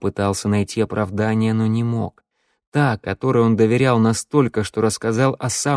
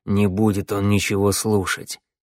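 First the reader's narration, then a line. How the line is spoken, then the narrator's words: Through gritted teeth. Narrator (Russian): процедил Вангели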